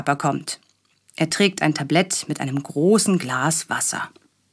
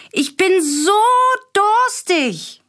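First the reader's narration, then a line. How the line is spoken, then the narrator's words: Calling out. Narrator (German): ruft er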